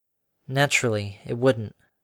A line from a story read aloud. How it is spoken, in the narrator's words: Harmony defeatedly murmured